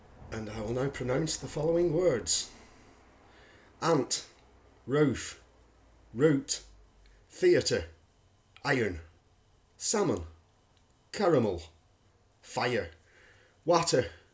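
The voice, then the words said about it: English Lancashire accent. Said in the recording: “I'm English, and I'm from a county called Lancashire”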